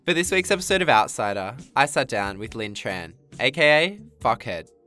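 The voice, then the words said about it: Slightly nasal, congested voice. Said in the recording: “I'm a bit sick this week, so my voice is a little bit nasal in the mic.”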